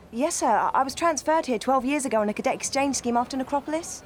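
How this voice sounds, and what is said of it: British accent. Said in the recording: “That a Brit set accent?”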